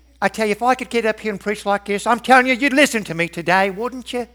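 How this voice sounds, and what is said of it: Put-on Australian or English accent. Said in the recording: “I'd go with Australian probably, or English ... I have no idea what that accent was, but it's pleasant to listen to”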